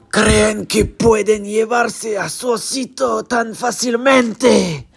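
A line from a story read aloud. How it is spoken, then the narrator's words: Deep voice. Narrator (Spanish): Era Héctor, que les dijo con voz profunda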